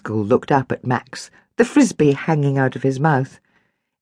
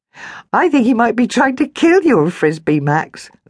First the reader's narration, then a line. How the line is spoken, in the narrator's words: Lila giggled